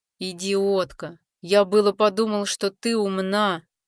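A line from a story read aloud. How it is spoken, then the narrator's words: Through gritted teeth. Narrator (Russian): Процедил сквозь зубы колдун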